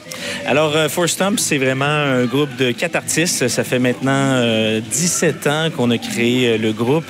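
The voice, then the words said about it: Québécois French accent. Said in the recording (French): “je me croirais à Québec ... avec votre accent et personnellement, je suis fan”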